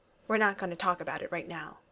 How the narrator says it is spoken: said firmly

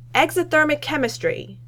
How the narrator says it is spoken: Tony yells back

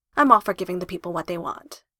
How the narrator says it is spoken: he says

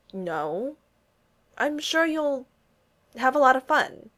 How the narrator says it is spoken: Steve stammered

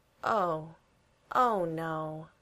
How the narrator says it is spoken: sighs

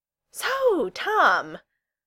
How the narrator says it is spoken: Alanna said desperately

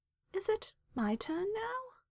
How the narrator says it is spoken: Merrill asked meekly

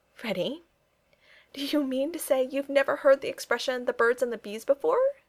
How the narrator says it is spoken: Kitty covered her face again, and it was nearly a full minute before she had recovered herself sufficiently to say unsteadily

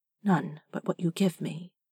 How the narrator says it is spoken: Jareth said softly

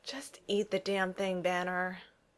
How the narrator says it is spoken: Maria says with a sigh

